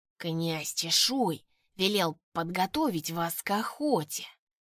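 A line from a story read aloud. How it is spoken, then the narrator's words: Hissing with nasty grin. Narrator (Russian): прошипел один из них, растягивая пасть в неприятной ухмылке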